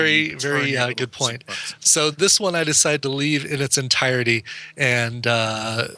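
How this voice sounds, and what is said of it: Usual voice. Nothing is said of it.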